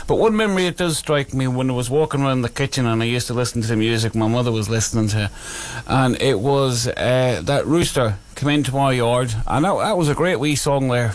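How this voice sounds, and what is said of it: Irish accent coming through. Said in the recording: “That's my accent coming back right there.”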